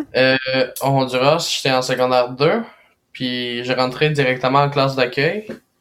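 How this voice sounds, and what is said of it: Spanish-influenced accent in French. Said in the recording (French): “as un super bel accent. Tu parles très bien français.”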